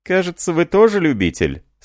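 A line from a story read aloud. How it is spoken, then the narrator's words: Laughing innkeeper. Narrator (Russian): сказал трактирщик, смеясь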